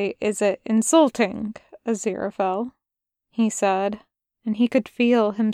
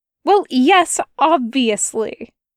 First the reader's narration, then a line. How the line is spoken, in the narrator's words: Aziraphale snapped